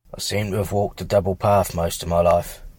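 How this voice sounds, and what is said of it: English accent. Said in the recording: “your awesome English accent”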